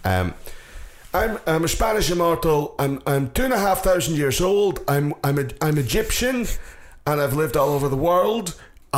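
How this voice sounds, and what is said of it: Scottish-accented movie character impression. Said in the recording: “he still fucking sounds more Scottish than anybody else in a movie about Scotland”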